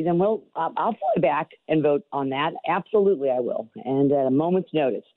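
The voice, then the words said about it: Raspy, hoarse voice. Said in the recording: “today is like a raspier. It sounds like your rock and roll radio voice today ... a little under the weather ... I am dragging”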